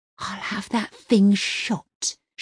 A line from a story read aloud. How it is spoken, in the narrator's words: she hisses